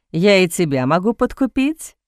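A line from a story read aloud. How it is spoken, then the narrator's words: Laughing. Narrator (Russian): рассмеялся Бастиан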